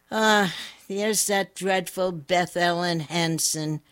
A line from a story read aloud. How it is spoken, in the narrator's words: said Janie with a sneer